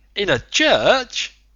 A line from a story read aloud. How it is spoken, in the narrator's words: the Canadian exclaimed